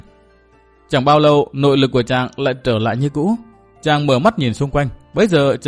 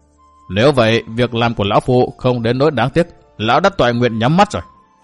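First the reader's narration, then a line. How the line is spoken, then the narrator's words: Old man laughing loudly. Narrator (Vietnamese): Ông lão cười lớn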